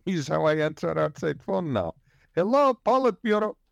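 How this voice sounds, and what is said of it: Put-on foreign accent, imperfect. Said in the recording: “I can't quite get it with this accent”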